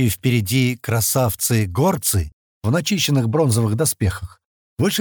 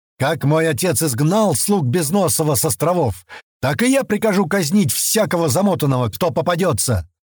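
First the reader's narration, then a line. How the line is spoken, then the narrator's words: Ringing shout. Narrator (Russian): звонко выкрикнул Бариан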